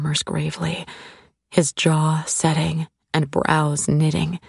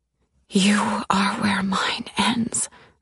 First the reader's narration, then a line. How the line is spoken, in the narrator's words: I whisper back